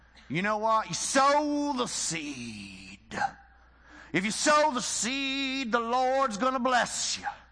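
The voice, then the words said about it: Put-on Southern American accent. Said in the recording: “I'm going to use the Southern accent. I'm sorry, because he had a Southern accent”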